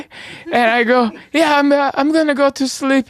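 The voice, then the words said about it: Put-on accent. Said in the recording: “I don't know why I have the accent.”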